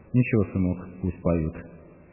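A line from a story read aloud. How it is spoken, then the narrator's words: Calm. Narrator (Russian): спокойно сказала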